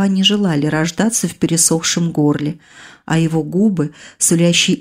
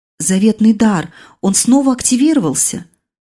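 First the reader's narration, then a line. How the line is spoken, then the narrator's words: Joyful squeal. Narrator (Russian): радостно взвизгнув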